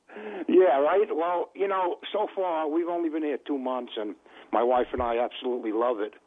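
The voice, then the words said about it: Bronx New York accent. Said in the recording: “I'm from the Bronx... You know the accent... I can tell by the accent.”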